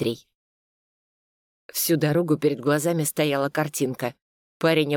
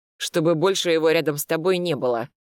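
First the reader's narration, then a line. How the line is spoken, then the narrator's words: Through gritted teeth. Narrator (Russian): процедил я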